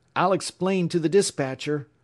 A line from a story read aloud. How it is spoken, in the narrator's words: he shouted over his shoulder